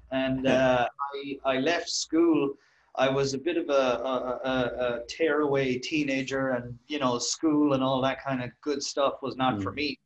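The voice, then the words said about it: Irish accent. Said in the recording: “I'm from Ireland, as I'm sure people can guess from my accent.”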